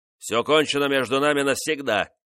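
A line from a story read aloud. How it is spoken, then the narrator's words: Sharp man's shout. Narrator (Russian): резко крикнул он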